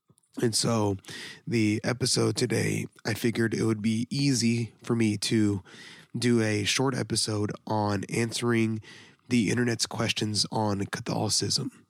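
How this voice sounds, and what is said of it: Badly damaged, sick-sounding voice. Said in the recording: “my voice is kind of like utterly and completely destroyed. I'm currently sick with the flu.”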